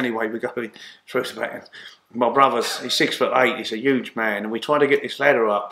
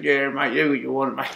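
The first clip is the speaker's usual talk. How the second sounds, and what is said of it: Put-on Bristol accent. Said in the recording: “with their Bristol accent”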